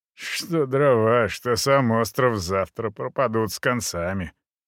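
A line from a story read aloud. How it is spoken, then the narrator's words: Short chuckle. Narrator (Russian): хохотнул он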